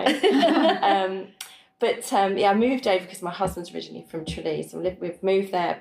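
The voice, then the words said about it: Posh southern English BBC accent. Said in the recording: “I've got quite a BBC voice ... I sound a bit too BBC ... I think you have a lovely accent”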